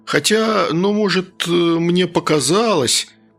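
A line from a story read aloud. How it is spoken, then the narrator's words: Hesitant. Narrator (Russian): неуверенно начал он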